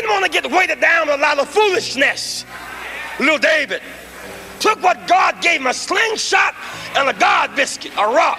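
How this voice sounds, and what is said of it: Southern non-rhotic preacher accent. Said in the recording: “Such a distinctive style and distinctive accent ... those Southern Baptist preacher rhythms ... you hear that non-rhotic”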